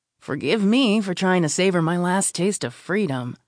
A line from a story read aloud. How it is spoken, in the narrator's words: I grumble